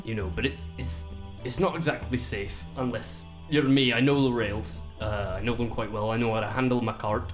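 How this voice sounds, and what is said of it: Weird-accented old dwarf character voice. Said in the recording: “My accent has gotten a bit weird because I've lived in a human town ... He's got a weird voice. ... Such a weird voice.”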